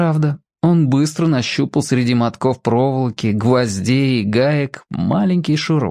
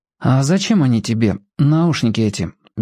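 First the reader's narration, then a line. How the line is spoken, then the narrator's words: Indifferent question. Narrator (Russian): безразличным голосом спросил Генка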